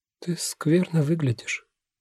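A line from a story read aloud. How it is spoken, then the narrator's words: Sleepy female voice. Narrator (Russian): говорит сонным голосом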